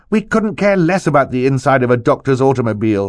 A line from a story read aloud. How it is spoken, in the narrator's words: Violet said impatiently